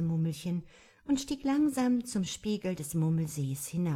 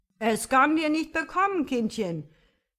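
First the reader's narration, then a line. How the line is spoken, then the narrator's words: Imploring call. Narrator (German): rief der Quabbelonkel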